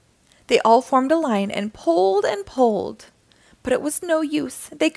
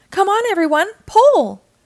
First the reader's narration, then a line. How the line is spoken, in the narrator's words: shouted Mr